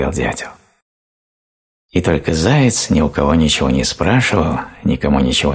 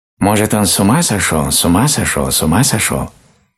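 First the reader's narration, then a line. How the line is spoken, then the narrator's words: Rapid chatter. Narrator (Russian): тараторил сорока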